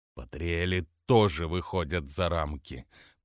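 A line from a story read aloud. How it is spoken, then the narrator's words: Through gritted teeth. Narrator (Russian): процедил Ривлекс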